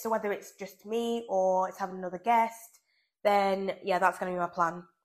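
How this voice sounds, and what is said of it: Sick, strange-sounding voice. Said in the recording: “I am not feeling very well at all, which is why I sound really weird ... I do not sound like Phoebe, Buffay, and I can't even talk now”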